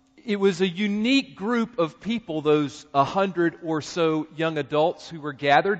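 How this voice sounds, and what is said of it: Southern American accent. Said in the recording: “I had a Southern accent ... I'm not sure if they were right.”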